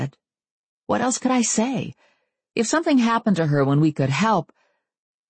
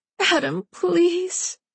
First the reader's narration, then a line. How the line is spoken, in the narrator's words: Christy pleaded